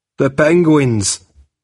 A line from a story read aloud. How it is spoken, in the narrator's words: he said